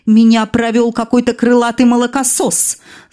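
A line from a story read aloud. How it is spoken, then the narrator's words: Angry laughter. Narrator (Russian): зло расхохоталась она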